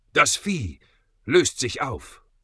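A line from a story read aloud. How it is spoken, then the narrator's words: Incredulous gasp. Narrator (German): keuchte Justus ungläubig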